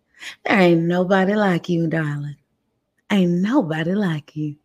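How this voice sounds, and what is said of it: Put-on country accent. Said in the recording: “Let me get my little country accent real quick.”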